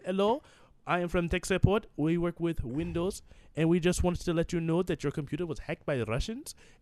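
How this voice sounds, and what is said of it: Put-on Indian accent. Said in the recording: “every Indian talks like that ... How long have you been working on that accent”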